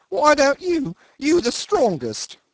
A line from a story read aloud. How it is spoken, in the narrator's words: whined the little engineer